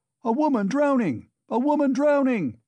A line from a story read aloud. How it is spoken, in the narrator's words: shouted dozens of voices